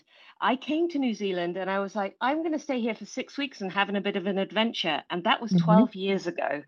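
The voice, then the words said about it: English accent. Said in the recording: “you will tell from my accent, I'm not originally from New Zealand ... But I was born in England.”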